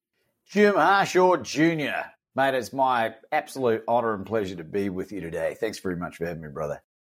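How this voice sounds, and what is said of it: Australian accent. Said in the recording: “we just like to hear the Australian accent.”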